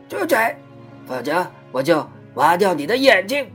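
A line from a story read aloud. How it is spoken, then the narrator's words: Hoarse crow's voice. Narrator (Chinese): 一只大乌鸦就嘶哑着嗓子对他说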